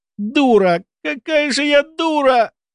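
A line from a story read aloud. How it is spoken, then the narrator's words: Moaning to herself. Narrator (Russian): простонала про себя Кенна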